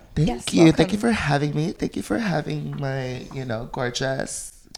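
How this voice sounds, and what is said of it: Heavy vocal fry. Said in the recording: “Fucking vocal fry. ... It's too early in the morning. We're all hungover.”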